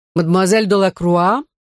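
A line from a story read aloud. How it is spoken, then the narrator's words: Stern questioning king. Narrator (Russian): строго вопросил король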